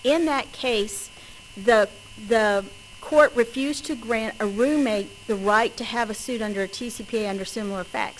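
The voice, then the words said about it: West Texas accent. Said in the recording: “my West Texas accent”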